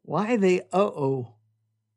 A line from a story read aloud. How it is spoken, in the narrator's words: asked Todd